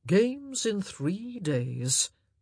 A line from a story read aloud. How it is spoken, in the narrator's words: Anthony said with a pleased sigh